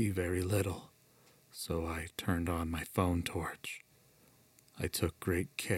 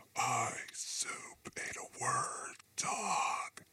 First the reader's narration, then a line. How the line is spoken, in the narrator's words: she whispered again, emphasizing each word with terrible and peculiar inflections